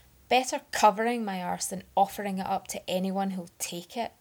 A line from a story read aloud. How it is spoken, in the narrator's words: Arthur spat